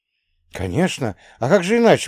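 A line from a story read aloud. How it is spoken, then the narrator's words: Exclamation. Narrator (Russian): воскликнул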